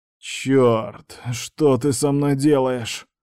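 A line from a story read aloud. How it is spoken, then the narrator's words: Strangled growl. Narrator (Russian): сдавленно прорычал я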